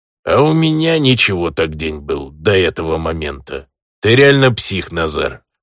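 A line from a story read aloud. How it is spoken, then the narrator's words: Grumbling. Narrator (Russian): пробурчал бандос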